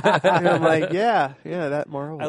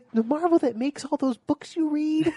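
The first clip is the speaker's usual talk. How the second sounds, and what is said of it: Exaggerated imitation of a parent's voice. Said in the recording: “The voices you do are very interesting. Neither one of them actually match your dad and your mom... they're kind of exaggerated”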